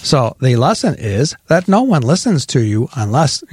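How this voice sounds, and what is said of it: Poor imitation of Alexa assistant voice. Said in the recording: “an Alexa voice ... That's really bad”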